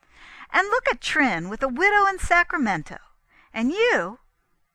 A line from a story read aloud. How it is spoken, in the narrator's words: The girl broke off short and laughed in his face